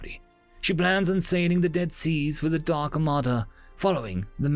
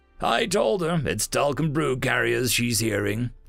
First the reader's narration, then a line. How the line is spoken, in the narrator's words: Daxton grumbled